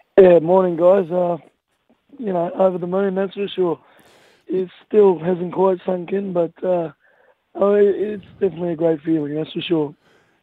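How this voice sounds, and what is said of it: Hoarse, strained voice. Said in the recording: “I lost my voice by the time I got the corner two from yelling in my helmet. So, it hasn't got much better”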